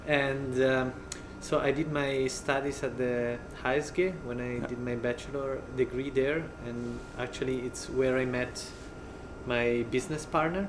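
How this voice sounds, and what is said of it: Swiss-Italian accented English. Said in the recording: “I come from Ticino, as you can hear from my funny accent. ... The lovely accent.”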